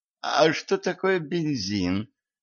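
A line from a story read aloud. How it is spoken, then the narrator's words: Timid question. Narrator (Russian): робко спросил Джон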